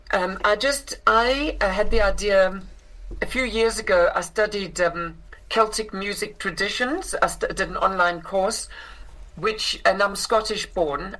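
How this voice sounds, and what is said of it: South African accent. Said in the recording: “I grew up in South Africa ... which is where I inherited this accent”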